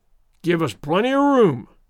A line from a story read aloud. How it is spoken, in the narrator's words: roared